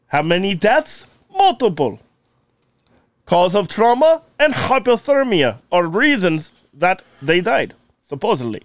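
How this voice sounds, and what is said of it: Slow put-on foreign accent. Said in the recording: “using the accent, if I'm fucking up a word, it gives me time to fix the word ... you have to think about how you're going to say it in the accent. ... That's why I slow it down.”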